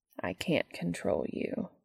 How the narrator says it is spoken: continues softly

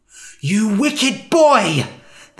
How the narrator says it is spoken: they spat

